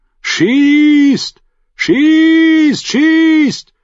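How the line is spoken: Shouting into the night. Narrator (German): schrie jemand in die Nacht

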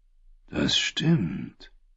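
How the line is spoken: Quiet priest. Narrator (German): sagte der Priester leise

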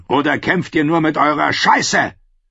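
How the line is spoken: Roaring, small man. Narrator (German): brüllte der kleine Mann

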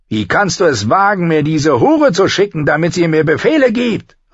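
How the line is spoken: Called out. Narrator (German): rief

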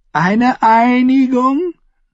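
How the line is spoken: Giggling. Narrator (German): Sir Alistair kicherte

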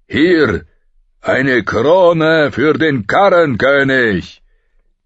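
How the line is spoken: Roared. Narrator (German): brüllte er

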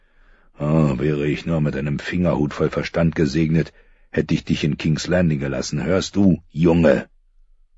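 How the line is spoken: Sharp growl. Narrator (German): knurrte dieses Wort stets und sprach es scharf aus

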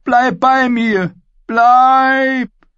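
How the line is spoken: Shouting. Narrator (German): schrie er

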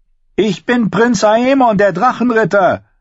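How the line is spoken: Called out. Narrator (German): rief John

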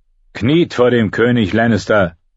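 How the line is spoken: Called out. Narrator (German): rief Theon Greyjoy

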